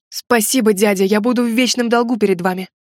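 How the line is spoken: Fervent exclamation. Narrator (Russian): пылко воскликнул тот

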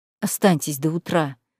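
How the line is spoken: Quiet. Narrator (Russian): сказал тихо

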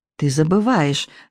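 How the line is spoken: Gentle reminder. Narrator (Russian): мягко напомнила Элинор

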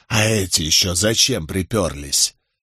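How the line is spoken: Loud whisper. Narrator (Russian): произнесенные громким шепотом слова

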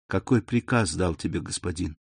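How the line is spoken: Barely audible question. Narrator (Russian): она едва слышно спросила Селима

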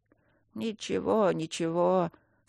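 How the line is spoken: Old singer muttering. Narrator (Russian): снова забормотал старый певец

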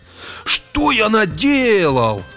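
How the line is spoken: Exclaimed. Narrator (Russian): воскликнул Грегор

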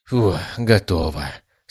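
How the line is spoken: Relieved sigh. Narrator (Russian): с облегчением вздохнул я

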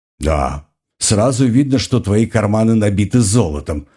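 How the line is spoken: Snorting. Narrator (Russian): фыркнул два серебряка

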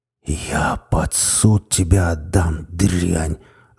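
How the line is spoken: Angry hiss. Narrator (Russian): зло прошипел Серов

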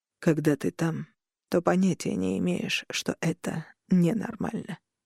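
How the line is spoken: Quiet reply. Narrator (Russian): тихо ответил

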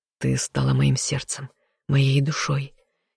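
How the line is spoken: Quiet man. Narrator (Russian): тихо произнес мужчина

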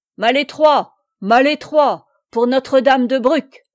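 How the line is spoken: Shouted. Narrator (French): cria à son tour Amaury

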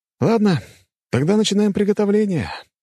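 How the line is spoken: Sigh. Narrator (Russian): вздохнул я

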